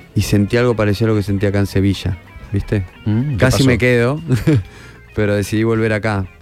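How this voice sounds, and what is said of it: Argentine Spanish accent. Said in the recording (Spanish): “Que te traes el acento de Argentina ... Lo traes más pegado”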